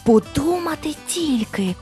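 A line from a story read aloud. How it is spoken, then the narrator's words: Amazed whisper. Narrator (Ukrainian): вражено прошепотів вартовий міської брами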